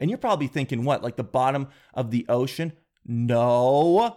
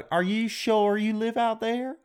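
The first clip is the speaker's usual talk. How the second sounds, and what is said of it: Put-on Southern US accent. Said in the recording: “my impressions is they're always a southern accent.”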